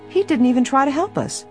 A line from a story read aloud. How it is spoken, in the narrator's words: said indignantly